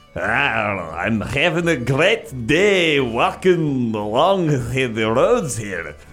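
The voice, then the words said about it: Lazy put-on Scottish accent. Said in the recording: “lazy Scottish hikers ... I'm going to make this accent pretty lazy as well.”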